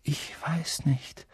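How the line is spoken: Quiet. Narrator (German): sagte Harry leise

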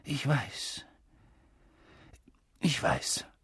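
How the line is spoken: Husky, choked voice. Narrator (German): sagte er mit belegter Stimme

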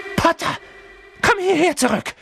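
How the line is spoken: Calling out. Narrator (German): rief Quirrell

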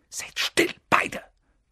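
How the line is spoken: Hissed. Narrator (German): zischte Harry

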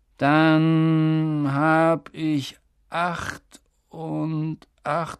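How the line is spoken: Slow. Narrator (German): sagte er langsam

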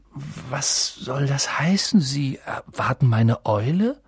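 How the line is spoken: Stammered. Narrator (German): stammelte er

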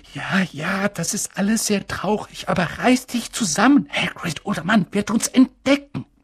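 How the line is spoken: Whispering. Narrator (German): flüsterte Professor McGonagall

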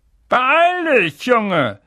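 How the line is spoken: Called from kitchen. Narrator (German): rief Onkel Vernon aus der Küche

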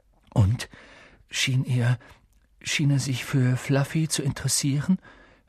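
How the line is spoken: Forced calm question. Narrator (German): fragte Harry mit angestrengt ruhiger Stimme

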